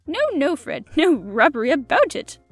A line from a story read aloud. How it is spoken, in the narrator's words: chuckled the hunchback